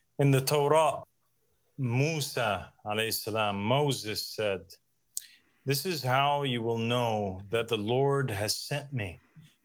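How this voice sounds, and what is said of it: Contrived-sounding non-Jersey accent. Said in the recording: “Where is this accent coming from? That ain't no Jersey accent. ... contrived”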